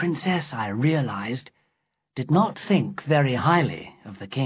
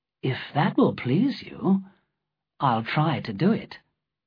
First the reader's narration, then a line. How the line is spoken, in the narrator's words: I said softly